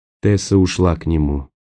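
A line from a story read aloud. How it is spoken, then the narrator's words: Soft whisper. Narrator (Russian): тихо прошептал Роэн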